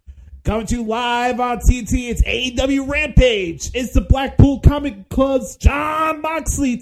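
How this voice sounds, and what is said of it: Imitates a wrestling announcer, deliberately bad. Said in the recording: “your weekly excrement impression”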